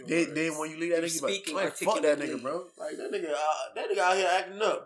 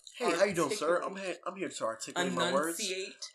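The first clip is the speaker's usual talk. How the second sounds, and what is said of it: Put-on formal "white voice". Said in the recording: “it's kind of like putting on your white voice”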